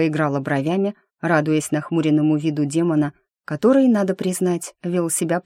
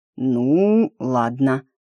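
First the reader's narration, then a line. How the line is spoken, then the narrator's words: Drawled. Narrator (Russian): протянул он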